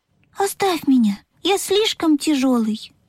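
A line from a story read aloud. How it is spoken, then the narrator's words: Sad little engine. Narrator (Russian): грустно сказал паровозик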